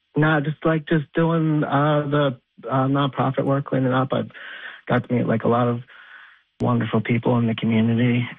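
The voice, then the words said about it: Choked up, emotional voice. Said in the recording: “I get a little choked up”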